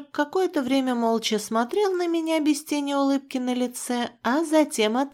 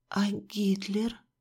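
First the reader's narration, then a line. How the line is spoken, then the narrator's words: Whispered question. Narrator (Russian): почему-то шепотом спросила я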